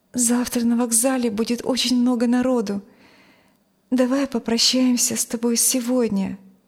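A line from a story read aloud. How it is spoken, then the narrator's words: Hesitant. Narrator (Russian): неуверенно сказала она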